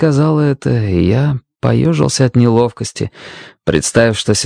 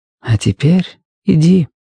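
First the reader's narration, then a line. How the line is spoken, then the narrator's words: Soft, gentle. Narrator (Russian): мягко проговорила Дженни Хампсток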